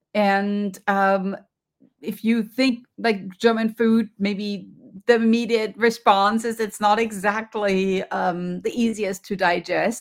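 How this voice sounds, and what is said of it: German accent. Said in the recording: “You can hear from my accent, I grew up in Germany.”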